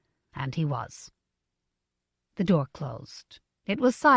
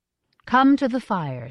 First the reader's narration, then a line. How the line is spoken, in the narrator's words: she said